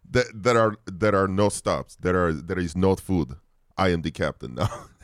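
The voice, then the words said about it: Put-on accent. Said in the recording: “do the accent ... your accent”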